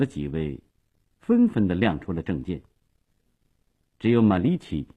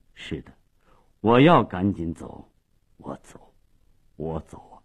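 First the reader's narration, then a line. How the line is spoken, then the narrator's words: Low hoarse voice. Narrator (Chinese): 马利奇沉默了半分钟，最后用低沉沙哑的声音说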